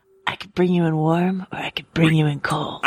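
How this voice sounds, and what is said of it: Gravelly tough-guy movie character voice. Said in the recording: “Look at you breaking out the impressions. That's very good. ... A very nice Pedro Pascal by way of Clint Eastwood. ... My Pedro Clint impression. ... a very Dirty Harry sort of, like, are you feeling lucky punk sort of line”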